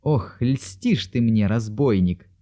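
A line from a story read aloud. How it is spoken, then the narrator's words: Laughing. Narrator (Russian): смеялась Екатерина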